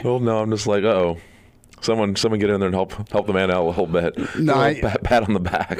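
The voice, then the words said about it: Deeper than usual voice. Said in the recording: “my voice is a little deeper than usual ... It's a good radio voice ... soothing tones”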